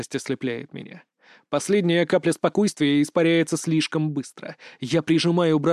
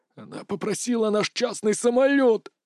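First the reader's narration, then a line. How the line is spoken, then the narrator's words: Hoarse rasp. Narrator (Russian): хрипит Гарри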